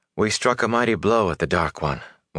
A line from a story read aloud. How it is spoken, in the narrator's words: Moraine replied, with a sigh